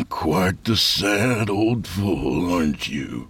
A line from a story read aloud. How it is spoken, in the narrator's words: he said with a grunt and a shake of his head